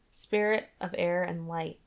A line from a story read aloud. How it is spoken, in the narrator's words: he said softly